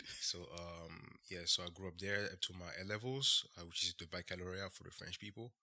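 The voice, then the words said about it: French accent. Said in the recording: “as you can hear from my accent, I can speak French.”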